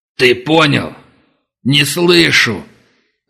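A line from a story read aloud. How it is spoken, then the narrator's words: Growling. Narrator (Russian): рычал он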